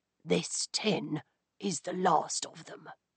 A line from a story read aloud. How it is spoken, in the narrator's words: he protested in a whisper